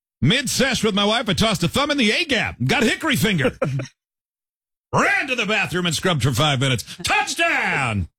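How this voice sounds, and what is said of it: Sportscaster voice. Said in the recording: “Said in your sportscaster voice.”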